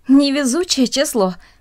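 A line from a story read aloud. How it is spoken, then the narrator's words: Said, then laughing. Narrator (Russian): сказала одна из них и засмеялась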